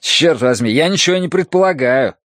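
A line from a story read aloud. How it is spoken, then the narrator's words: Tight-lipped snap. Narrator (Russian): огрызнулся Нарда, поджав губы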